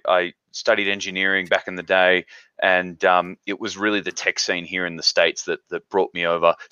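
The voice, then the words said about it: Australian English accent. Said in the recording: “there's a mismatch with the accent there. Originally, I'm from Australia”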